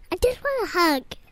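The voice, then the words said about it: Baby voice. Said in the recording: “I do a good baby voice ... Oh, you do such a good baby voice.”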